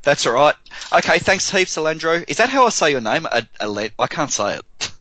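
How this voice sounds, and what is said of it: Strong accent. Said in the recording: “My accent is quite strong.”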